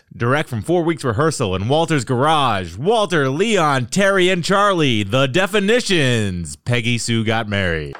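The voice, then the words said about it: Announcer-style radio voice. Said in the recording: “here's my radio voice.”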